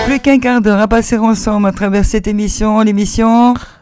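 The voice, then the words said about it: Strong regional French accent. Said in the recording (French): “Mais quel accent. ... Bah, c'est de chez moi quand même”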